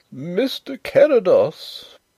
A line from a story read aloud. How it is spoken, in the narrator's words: wailed the poor old gentleman in a tremulous bleat